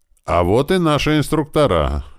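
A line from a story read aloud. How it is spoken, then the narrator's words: Loud. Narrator (Russian): громко произнес Хас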